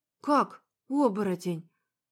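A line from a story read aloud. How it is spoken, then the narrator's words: Breathless. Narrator (Russian): выдохнула я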